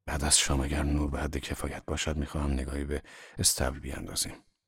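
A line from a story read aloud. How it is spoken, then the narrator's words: Hoarse, husky voice. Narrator (Persian): با صدایی گرفته به من گفت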